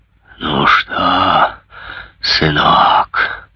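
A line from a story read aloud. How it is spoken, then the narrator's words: Growling invalid. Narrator (Russian): рычал паралитик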